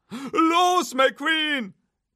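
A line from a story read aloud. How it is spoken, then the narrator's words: Roaring. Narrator (German): brüllte Hook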